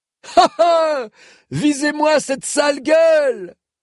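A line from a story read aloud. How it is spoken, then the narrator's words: Triumphant shouting. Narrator (French): vociféra l'indiscret sur un ton triomphant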